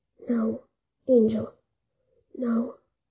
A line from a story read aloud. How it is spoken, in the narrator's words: The broken figure down the way muttered again